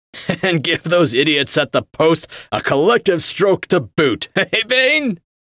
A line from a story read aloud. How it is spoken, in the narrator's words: Roosevelt laughed